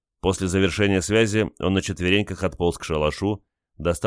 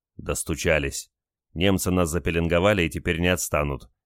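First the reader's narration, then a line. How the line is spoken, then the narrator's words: Angry remark. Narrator (Russian): сердито заметил Олег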